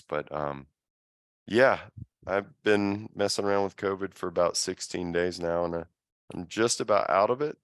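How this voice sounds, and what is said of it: Congested, sinusy voice. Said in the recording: “some sinusy stuff, which you can likely hear in my voice.”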